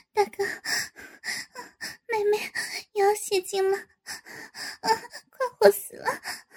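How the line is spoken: Soft panting moans. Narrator (Chinese): 轻声嗷嗷着，气喘着道

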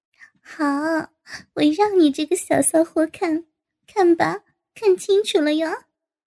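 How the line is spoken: Laughing. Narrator (Chinese): 高杰笑道

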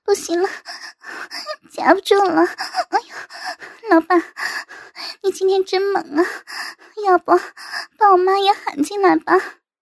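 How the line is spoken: Trembling, moaning voice. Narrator (Chinese): 周小姨 颤声的娇吟道

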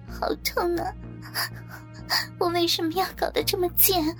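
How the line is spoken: Tearful complaint. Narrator (Chinese): 美华哭诉道

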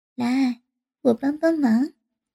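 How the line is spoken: Smiling. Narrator (Chinese): 笑着

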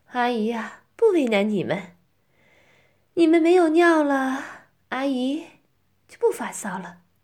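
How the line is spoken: Laughing. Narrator (Chinese): 我就笑着说

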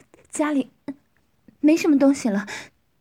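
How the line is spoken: Breathless woman. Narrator (Chinese): 女人喘息着说

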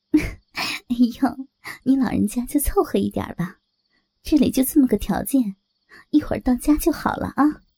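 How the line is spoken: Said with a smile. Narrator (Chinese): 我笑着说

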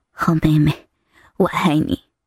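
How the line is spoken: Soft tender. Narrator (Chinese): 陈三突然软下心来，他柔声说道

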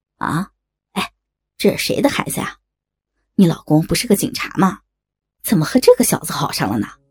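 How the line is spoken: Laughing. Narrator (Chinese): 小伟笑道

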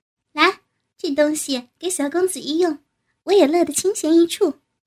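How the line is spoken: Laughing. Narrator (Chinese): 巧月也是笑

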